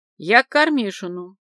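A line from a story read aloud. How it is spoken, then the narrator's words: Added sharply. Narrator (Russian): И более резко добавила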